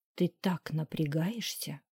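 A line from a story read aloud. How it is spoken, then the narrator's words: Whisper in ear. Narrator (Russian): прошептал мне на ухо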